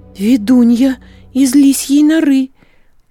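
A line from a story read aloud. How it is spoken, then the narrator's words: Girl exclaiming. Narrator (Russian): воскликнула девушка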